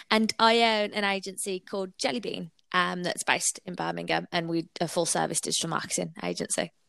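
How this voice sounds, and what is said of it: Birmingham (Brummie) accent. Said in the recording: “As you can probably tell from the twang, I'm a born and bred Brummie.”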